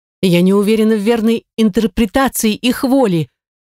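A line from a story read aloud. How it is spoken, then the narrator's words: Exclaimed. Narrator (Russian): воскликнула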